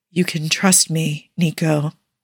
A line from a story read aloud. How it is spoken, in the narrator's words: he whispers softly